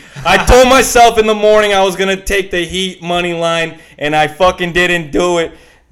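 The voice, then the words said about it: Bad put-on New York accent. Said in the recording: “I go into like the worst New York accent ever”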